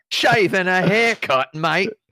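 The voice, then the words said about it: Put-on Australian accent. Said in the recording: “That's getting into the Australian style.”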